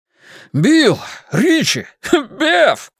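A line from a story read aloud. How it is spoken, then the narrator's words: Surprised shout, then laughter. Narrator (Russian): крикнул он и расхохотался от удивления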